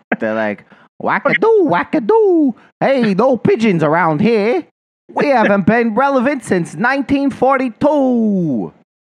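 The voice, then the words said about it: Mock Yonkers local accent. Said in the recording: “Your good feathers impersonation ... that's what they sound like in Yonkers”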